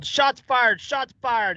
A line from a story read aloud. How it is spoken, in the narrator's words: The officers yelled